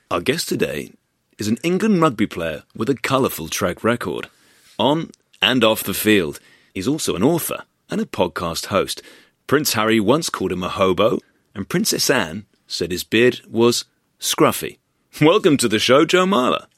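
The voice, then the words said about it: Exaggerated, ridiculous show-host voice. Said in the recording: “you're doing that voice ... in that ridiculous voice. It was a very good voice, slightly ridiculous.”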